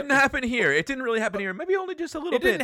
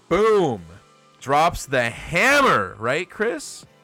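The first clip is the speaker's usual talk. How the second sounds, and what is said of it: Sarcastic delivery. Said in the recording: “I'm being sarcastic, to be clear.”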